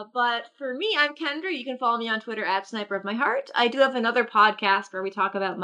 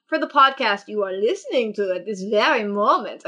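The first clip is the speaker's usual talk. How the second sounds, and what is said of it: Put-on funny voice. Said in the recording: “I don't know why I did that voice”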